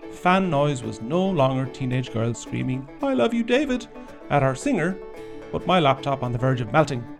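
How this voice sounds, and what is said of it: Irish accent. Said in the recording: “I'm speaking in an Irish accent”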